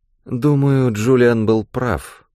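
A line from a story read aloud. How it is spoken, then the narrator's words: Sleepy. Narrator (Russian): сонно проговорила Фиона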